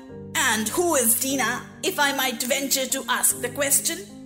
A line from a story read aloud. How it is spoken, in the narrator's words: said the lorry